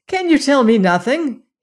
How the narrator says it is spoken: he cried

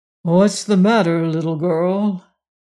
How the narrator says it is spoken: George opened his eyes sleepily and said

